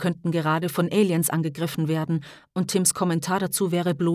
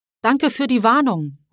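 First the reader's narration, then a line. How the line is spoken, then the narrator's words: Calling out. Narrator (German): ruft er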